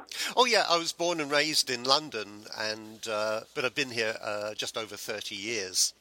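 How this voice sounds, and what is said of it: English accent. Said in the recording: “you sound awfully English”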